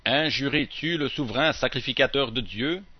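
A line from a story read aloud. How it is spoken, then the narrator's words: Plain. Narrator (French): Paul dit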